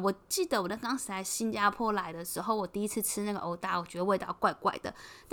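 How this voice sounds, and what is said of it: Heavy Taiwanese Mandarin accent. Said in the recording (Chinese): “老板有帮我们认出来，说我们是不是台湾人 ... 我的口音真的实在太重了”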